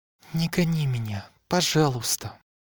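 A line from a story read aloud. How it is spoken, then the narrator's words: Pleading whisper. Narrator (Russian): Прошептала Элейн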